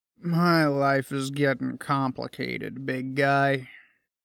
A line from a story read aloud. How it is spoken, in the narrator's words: Sam said in an excessively depressed voice